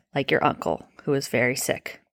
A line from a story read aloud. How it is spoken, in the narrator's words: more gently, she had added